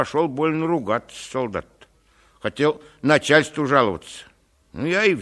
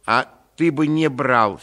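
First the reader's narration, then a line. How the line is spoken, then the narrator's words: Angry remark, lady. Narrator (Russian): сердито заметила барыня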